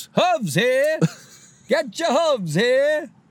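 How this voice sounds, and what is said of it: Imitates a vendor hawking at a concert. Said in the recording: “doing an impression of a guy at a concert walking around with hooves”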